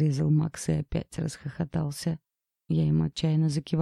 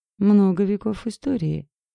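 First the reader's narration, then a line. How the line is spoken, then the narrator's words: Speaking through laughter. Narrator (Russian): сквозь смех произнес Макс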